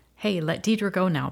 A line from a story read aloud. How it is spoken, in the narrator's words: Ben said